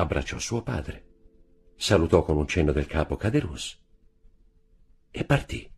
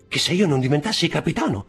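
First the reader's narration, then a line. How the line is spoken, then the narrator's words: Exclaimed. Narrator (Italian): esclamò Caderousse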